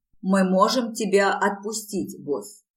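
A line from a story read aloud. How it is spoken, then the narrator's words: Plain. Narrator (Russian): спросил Локи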